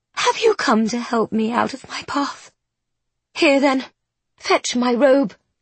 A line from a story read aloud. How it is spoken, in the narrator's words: she commands in a husky whisper